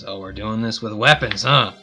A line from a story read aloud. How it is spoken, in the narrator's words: angrily look at you, pull out his hammer, and he says